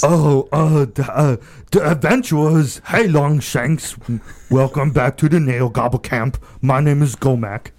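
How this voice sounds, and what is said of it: Character voice of Gomek. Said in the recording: “I want to hear Gomek.”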